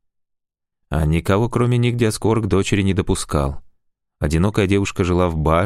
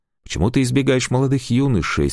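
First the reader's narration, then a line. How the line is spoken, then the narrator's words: Plain question. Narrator (Russian): спросил дочь Диаскор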